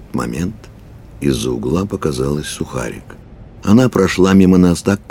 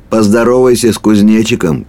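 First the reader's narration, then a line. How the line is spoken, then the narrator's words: Shouted after someone. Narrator (Russian): крикнул ей вслед Кухарев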